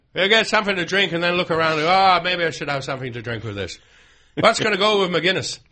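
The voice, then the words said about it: Bad put-on Irish accent. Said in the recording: “Bad Irish accents.”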